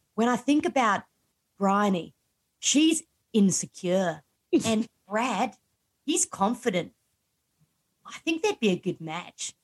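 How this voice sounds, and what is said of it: Put-on Australian accent. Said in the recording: “I'm going to try to do my best Australian accent ... I'm going to go, like, totally Australian”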